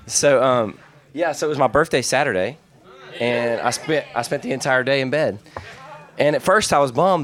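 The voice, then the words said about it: Weakened, sick-sounding voice. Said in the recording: “excuse my voice today. I have a little bit of a cold ... my voice still isn't there”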